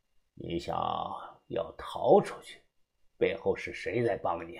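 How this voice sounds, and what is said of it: Usual voice. Nothing is said of it.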